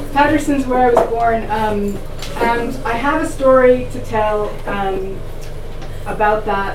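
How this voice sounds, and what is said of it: New Jersey accent. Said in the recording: “I'm from New Jersey, as you can hear in my voice.”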